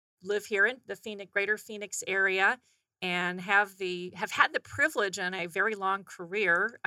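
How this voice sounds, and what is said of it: Slight North Carolina twang. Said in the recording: “I am a native of North Carolina, so you'll hear a little bit of a twang every now and then”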